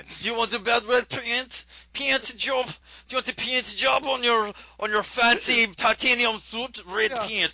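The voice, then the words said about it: Russian accent slipping into Jamaican. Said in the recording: “I now have my one-word Russian accent... I always fall in Jamaican. Why do I always go Jamaican?... It just went straight to the tropics.”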